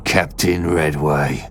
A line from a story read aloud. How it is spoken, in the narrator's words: Bismarck spat through gritted teeth